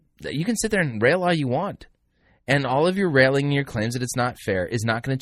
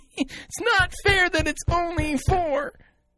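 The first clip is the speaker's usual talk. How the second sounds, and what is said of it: Whiny temper-tantrum voice. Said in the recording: “My best impersonation of a temper tantrum.”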